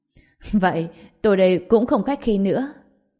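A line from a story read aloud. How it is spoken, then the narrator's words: Laughing loudly. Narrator (Vietnamese): Quan Khải Đường cười lớn, nói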